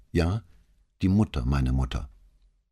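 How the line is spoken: Very calm reply. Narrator (German): antwortete aber ganz ruhig

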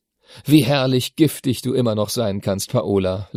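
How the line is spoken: Laughing. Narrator (German): lachte er

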